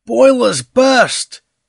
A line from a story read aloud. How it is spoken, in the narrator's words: exclaimed MacDonald